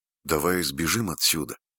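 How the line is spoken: Whispered. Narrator (Russian): Оливер шепнул

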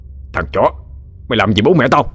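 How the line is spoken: Through-gritted-teeth shout. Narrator (Vietnamese): Gã Trường nghiến răng quát

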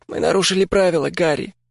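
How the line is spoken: Hoarse. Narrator (Russian): охрипло сказала она

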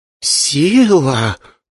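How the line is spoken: Whispered. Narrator (Russian): прошептала Ай

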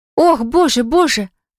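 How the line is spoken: Moaning. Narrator (Russian): застонала Селина

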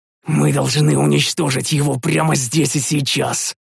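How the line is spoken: Hoarse rasp. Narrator (Russian): прохрипел я

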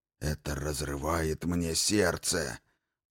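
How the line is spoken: Whispering shadow. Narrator (Russian): прошептала тень, что была выше, и я узнал Иналуки

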